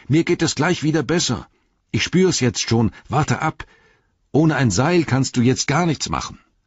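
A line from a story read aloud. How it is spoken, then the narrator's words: Calling up, firmer voice. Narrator (German): rief Frodo hinauf, nun mit festerer Stimme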